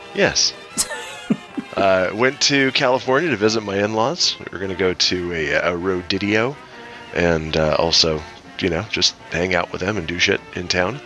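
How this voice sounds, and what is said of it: Sick-sounding voice. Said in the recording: “as you can probably tell by my voice, I got me some sick.”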